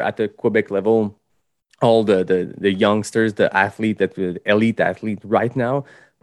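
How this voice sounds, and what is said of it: Heavy non-native English accent. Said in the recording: “my my big accent”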